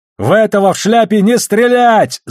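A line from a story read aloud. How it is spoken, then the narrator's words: Yelling. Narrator (Russian): заорал Холден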